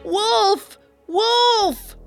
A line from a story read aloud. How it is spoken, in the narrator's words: Lycos scream